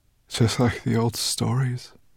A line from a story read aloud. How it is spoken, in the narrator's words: murmured Shimmertail